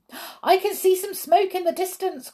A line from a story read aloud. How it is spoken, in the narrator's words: cried someone